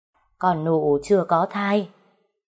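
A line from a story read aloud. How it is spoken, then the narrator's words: Sighing reply. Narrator (Vietnamese): mợ đã thở dài đáp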